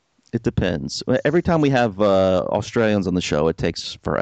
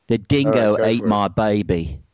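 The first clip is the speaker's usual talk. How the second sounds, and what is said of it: Exaggerated put-on Australian accent. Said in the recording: “Hear my horrible Australian accent ... That was a very good Meryl Streep impersonation.”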